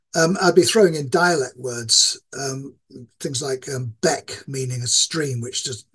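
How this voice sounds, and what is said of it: Moderated Yorkshire English accent. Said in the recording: “I moderate my accent when I'm speaking to people who aren't from where I'm from. This is my normal speaking accent... people who aren't from Yorkshire”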